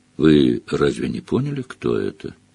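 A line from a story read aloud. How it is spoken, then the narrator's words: Calm question. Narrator (Russian): спокойно спросил Фиранс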